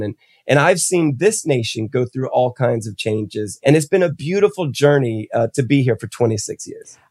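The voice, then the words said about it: American accent. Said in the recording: “Don't be fooled by my accent. I am not your traditional Yankee”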